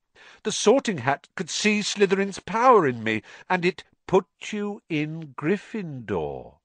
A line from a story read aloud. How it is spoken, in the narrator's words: said Dumbledore calmly